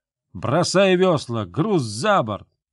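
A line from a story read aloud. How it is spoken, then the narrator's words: Shouting. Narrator (Russian): он крикнул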